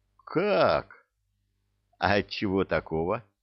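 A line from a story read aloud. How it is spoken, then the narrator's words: Gentle soothing sing-song. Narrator (Russian): Ласково запел Забейка, будто стоял сейчас над койкой с душевнобольным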